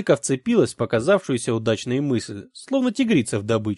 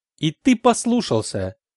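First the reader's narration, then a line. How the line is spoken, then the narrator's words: Accusatory prosecutorial tone. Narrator (Russian): прокурорским тоном объявила Далька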